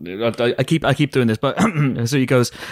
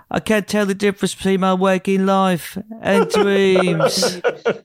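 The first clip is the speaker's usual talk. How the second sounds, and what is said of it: Imitated British-accented character voice. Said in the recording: “you have to try to impersonate him... That is very good. I love his accent... he was staying in that accent... that character brought that British humor”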